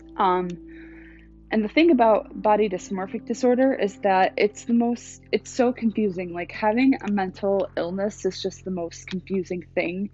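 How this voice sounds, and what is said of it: Shaky, nervous voice. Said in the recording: “my voice is like kind of shaking, because I'm like, oh, this is kind of like scary to talk about”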